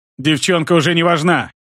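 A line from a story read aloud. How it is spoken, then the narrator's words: Shouting. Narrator (Russian): крикнул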